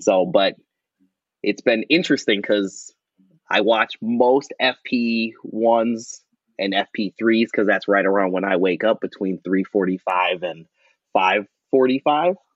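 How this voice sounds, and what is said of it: Noticeable Wisconsin accent. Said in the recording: “I do have a very noticeable Wisconsin accent”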